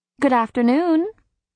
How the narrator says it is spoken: I said cheerfully, with an especially saccharine smile for the High Lord

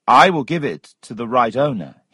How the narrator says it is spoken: he said

